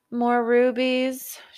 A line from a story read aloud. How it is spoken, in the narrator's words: said with a bored yawn